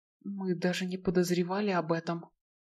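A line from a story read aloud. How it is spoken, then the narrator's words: Whispered. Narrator (Russian): прошептал Блейн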